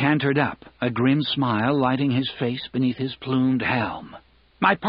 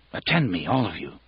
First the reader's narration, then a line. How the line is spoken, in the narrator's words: Baelor said quietly